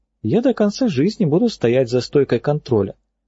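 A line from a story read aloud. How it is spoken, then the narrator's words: Calm explanation. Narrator (Russian): все так же спокойно объяснила она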